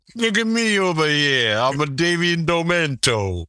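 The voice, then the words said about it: Exaggerated put-on New York accent. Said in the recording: “With his huge New York accent”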